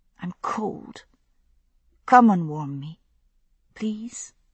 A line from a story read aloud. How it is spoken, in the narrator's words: I whispered to him